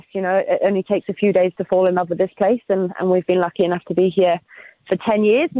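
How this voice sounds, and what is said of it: British accent. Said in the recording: “you may tell by my accent that I'm actually not around from this neck of the woods originally. I'm actually from the UK myself”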